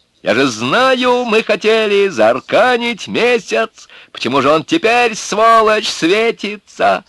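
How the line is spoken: Shouting from above. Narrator (Russian): он кричал с вышки

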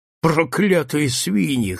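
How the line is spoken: Hoarse rasp. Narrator (Russian): хрипит

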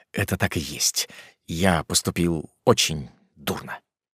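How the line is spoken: Muttering. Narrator (Russian): Он пробормотал

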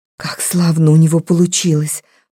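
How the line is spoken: Whisper. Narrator (Russian): прошептала она

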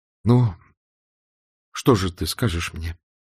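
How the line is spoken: Trembling voice. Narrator (Russian): сказал Левин дрожащим голосом

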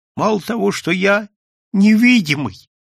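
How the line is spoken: Sobbing voice. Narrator (Russian): послышался рыдающий голос

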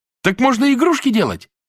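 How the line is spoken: Cheerful distant shout. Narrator (Russian): закричал с другой верхней койки веселый Руська

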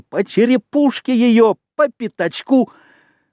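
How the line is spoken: Squealing. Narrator (Russian): Моррис с визгом

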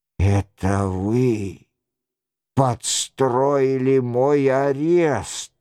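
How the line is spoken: Confused mutter. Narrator (Russian): растерянно бормотал Роншероль

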